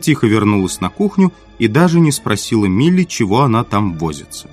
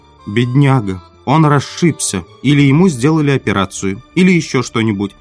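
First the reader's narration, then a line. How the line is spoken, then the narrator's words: Plain. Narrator (Russian): сказала миссис Холл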